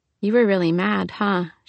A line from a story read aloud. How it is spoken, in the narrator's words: she said, her tone soft